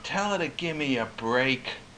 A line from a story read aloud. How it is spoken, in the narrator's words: in the most plaintive, sad voice, a little voice for Koch